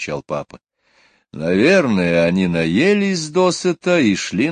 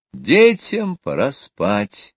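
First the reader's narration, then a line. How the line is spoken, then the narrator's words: Cheerful exclamation. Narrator (Russian): весело воскликнула мама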